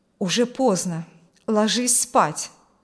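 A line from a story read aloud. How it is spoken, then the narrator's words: Firm voice. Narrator (Russian): сказала она твердым голосом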